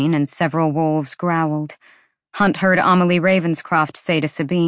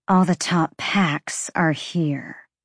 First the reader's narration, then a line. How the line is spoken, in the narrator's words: Sabine murmured